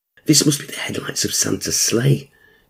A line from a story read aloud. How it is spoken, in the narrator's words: whispered to himself